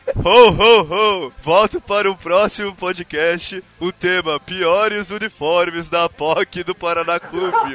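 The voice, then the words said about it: Santa Claus character voice. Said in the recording (Portuguese): “faz o sotaque do Papai Noel”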